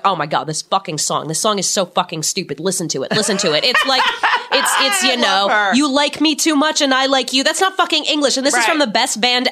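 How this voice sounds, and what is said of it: Put-on New York accent. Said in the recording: “I'm giving her like a New York accent, even though she was from Chicago.”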